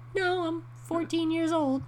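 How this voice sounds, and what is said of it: Imitates a teenage boy, too high. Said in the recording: “That was my impression of that guy. He probably had a lower voice than that”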